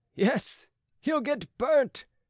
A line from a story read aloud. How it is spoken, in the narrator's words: cried the crowd